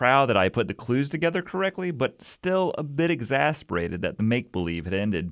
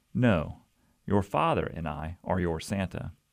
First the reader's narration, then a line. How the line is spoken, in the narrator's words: gently replied